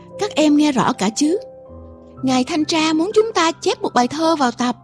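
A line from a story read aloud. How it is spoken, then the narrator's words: Teacher speaking loudly. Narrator (Vietnamese): Cô giáo lớn tiếng bảo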